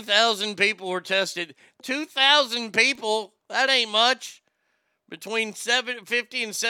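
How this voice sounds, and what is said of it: Usual voice. Nothing is said of it.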